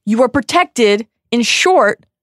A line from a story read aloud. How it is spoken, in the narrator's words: Dumbledore shouts back